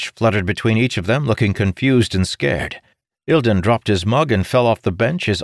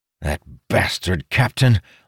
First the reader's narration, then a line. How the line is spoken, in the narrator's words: Amadal muttered